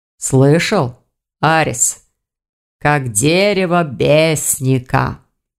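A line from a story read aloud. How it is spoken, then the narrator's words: Drawl. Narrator (Russian): протянул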